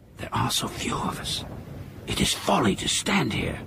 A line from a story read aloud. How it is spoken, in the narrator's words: One militiaman whispered